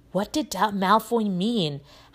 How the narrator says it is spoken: Harry muttered to Ron

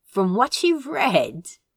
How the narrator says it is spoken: Crow laughed

